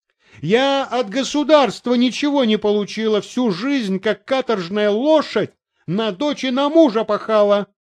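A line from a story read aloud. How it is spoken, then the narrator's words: Shrieking landlady. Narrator (Russian): визжала хозяйка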